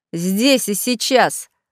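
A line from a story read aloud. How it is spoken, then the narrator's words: Angry spat words. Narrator (Russian): зло сплюнул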